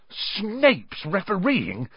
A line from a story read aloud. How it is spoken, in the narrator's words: spluttered through a mouthful of mud